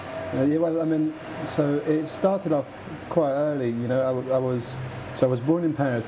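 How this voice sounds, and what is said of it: French accent with Liverpool twist. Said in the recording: “you do have a bit of a Liverpool twist to your otherwise French ... accent”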